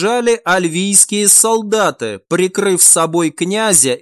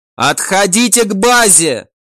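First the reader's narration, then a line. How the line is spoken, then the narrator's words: Shouted. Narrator (Russian): прокричал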